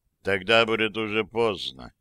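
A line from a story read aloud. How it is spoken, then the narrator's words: Weary, emperor. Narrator (Russian): устало проговорил император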